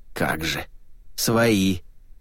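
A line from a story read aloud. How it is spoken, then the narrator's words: Through clenched teeth. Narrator (Russian): процедил карабаш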